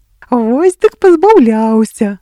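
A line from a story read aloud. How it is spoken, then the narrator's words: Pirate speaking, then laughing. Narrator (Belarusian): сказаў пірат і рассмяяўся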